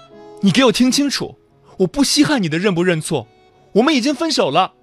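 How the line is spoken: Impatient shout. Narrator (Chinese): 陈昂突然不耐烦的喊道

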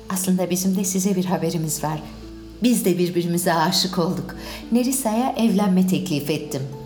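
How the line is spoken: Plain. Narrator (Turkish): dedi

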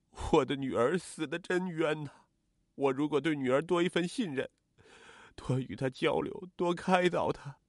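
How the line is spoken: Sobbing grief-stricken confession. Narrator (Chinese): 曾国华痛不欲生，大哭着忏悔道

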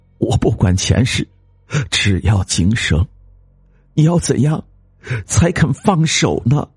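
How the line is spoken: Sighing woman. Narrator (Chinese): 女子叹了一口气

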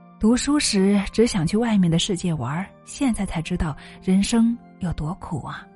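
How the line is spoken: Resigned sigh. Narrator (Chinese): 他无奈的叹气道

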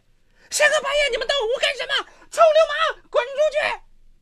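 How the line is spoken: Loud shout. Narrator (Chinese): 他大声喊起来

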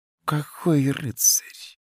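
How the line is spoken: Whisper. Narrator (Russian): прошептала Альварита

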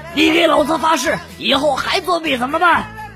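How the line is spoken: Loud shouting. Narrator (Chinese): 又大声的吼道

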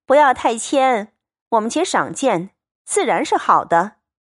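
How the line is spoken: Group laughing. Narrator (Chinese): 众人笑道

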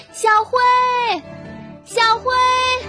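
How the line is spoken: Loud calling. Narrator (Chinese): 兔妈妈在森林里高声的喊着

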